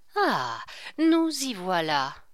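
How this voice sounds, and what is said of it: Pitiful, lamenting tone. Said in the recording (French): “avec un accent lamentable”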